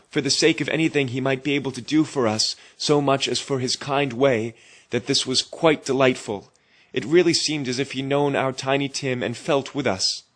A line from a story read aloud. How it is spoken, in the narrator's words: cried Bob